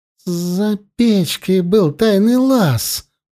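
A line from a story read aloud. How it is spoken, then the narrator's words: Muttered through clenched teeth. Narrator (Russian): процедила сквозь зубы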